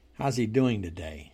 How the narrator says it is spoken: asked

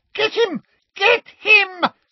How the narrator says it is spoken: screamed Umbridge

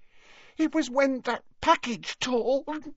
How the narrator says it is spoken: sobbed Leanne

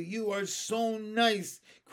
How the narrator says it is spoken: cried Benny

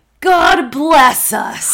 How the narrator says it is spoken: Billy roared with all his might

